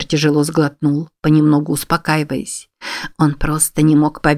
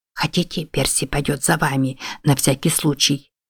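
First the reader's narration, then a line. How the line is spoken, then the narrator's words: Whispered question. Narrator (Russian): шепотом спросила Мэгги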